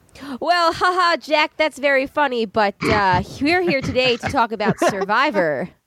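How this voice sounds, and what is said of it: Impression of a co-host. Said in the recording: “my best Jay impression”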